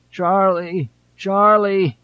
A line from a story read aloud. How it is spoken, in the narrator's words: Johnson moaned